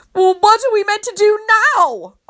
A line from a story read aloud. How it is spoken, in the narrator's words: I screech